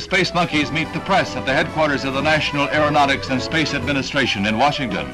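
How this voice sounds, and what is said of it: American accent. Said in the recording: “that was more of an American accent ... and not the the English accent”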